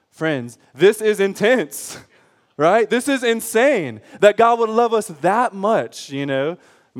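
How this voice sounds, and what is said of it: Yelling, loud preaching voice. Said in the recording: “because he's yelling”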